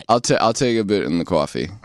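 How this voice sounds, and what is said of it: New Jersey accent. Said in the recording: “my Jersey accent comes out ... I just caught myself saying coffee”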